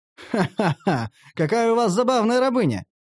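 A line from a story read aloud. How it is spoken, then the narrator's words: Merchant laughing. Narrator (Russian): рассмеялся торговец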